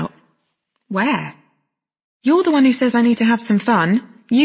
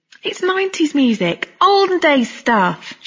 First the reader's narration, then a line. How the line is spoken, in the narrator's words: she said cheerfully